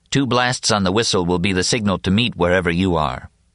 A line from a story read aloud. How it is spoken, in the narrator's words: he suggested calmly